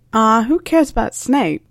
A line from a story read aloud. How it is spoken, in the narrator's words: laughed George